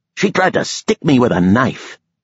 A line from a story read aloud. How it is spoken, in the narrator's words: Pilot shouted